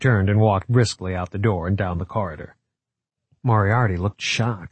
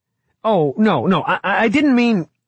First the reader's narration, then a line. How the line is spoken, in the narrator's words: he stammered